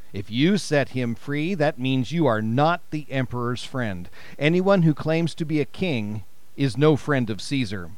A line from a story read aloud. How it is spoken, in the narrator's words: But the Jews shouted back